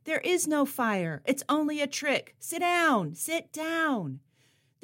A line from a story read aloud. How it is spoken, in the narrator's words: she shouted